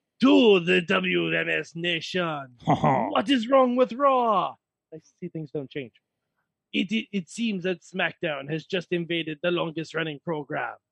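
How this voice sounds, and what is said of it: Bad put-on French accent. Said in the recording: “I have to do it in my shitty French accent ... You better do this entire thing in the French accent.”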